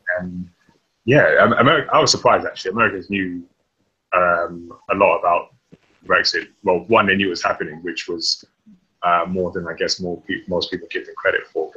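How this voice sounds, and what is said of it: British accent. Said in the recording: “you're British? ... Obviously, the accent they give away”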